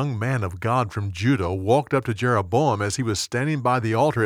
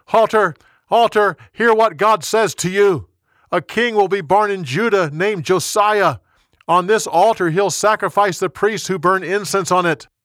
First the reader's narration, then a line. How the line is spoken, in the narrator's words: The young prophet yelled